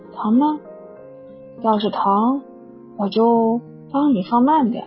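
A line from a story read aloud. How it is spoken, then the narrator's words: Sighing, concerned. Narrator (Chinese): 他叹口气，关切道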